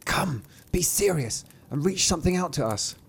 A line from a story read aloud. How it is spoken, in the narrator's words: they whispered to him